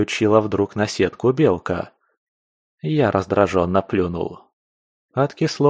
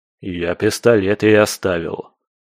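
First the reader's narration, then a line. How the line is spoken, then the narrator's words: Grumbling. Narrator (Russian): проворчал я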